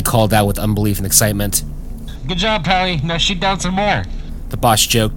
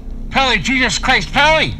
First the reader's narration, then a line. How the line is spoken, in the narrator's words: Willie yelled over the intercom after seeing the explosion